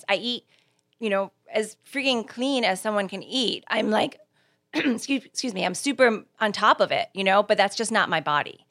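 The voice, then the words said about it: Hoarse, failing voice. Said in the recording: “Apparently I'm losing my voice.”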